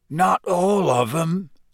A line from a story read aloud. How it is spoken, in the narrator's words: said Hagrid hoarsely